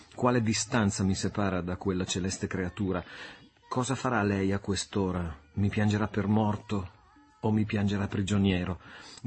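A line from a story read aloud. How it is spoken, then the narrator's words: Murmuring. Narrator (Italian): mormorò egli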